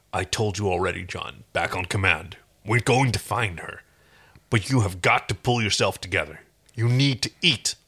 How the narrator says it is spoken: said gruffly

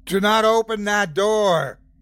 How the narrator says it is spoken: I shouted, voice laden with authority

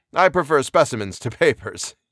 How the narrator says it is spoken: he laughed cheerily

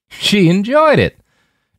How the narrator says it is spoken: Jim said with a harsh bark of a laugh

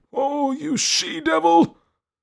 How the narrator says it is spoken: he cried out

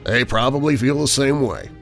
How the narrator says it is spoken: said the skipper, dryly

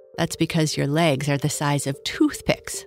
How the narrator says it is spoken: laughed Kurt

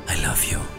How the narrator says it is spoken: whispered softly

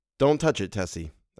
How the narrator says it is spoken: I said

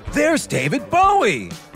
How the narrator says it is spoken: he exclaimed

